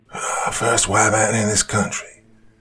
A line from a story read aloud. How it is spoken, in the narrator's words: muttered old Jim, becoming intelligible